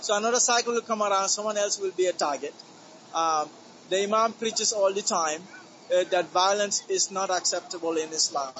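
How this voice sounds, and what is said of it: Gambian West African accent. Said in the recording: “with your accent, where are you from? ... My accent is from Gambia in West Africa.”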